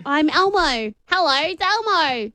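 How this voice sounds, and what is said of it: Attempted Elmo voice, American accent. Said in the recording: “I know Cookie Monster. ... Elmo always refers to Elmo as Elmo. ... I'm with an American accent. ... I think you're finding it. I think you're getting better. ... I'm speaking an American accent. Now I make it squeaky.”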